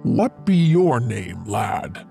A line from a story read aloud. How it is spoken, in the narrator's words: Cornelius asked him gruffly